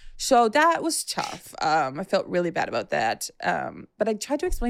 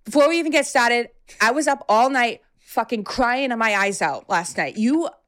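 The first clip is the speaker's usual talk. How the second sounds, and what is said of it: Put-on strong Massachusetts accent. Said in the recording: “give me the mass accent ... Oh, she's got it crazy.”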